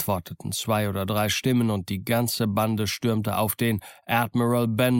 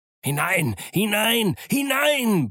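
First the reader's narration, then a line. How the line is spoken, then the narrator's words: Angry impatient roar. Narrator (German): brüllte er und fluchte über ihre Langsamkeit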